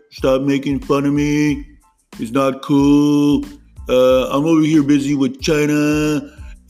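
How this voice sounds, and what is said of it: Donald Trump impression. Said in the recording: “do an impression, and it was of my Donald Trump impression”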